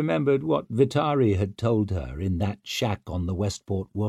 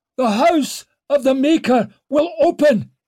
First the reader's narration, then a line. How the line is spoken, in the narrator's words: barked in a broken voice